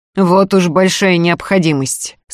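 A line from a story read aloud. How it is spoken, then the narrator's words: Through gritted teeth. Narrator (Russian): сквозь зубы заметил Сергей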